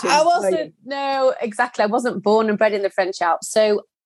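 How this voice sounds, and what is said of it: Yorkshire accent. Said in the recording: “as you can tell from the accent, from Yorkshire.”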